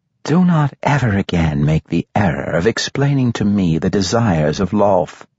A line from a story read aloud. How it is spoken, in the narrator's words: Matron Mother Quenthel, who was no older than Manolan, replied, her voice dripping with condescending sweetness